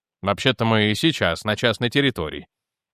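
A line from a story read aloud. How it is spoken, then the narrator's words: Plain. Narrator (Russian): ответил Реймонд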